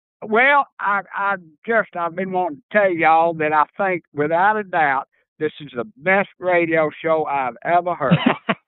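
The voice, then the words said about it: Southern American accent. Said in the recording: “where that y'all and Southern accent comes from, here's my daddy”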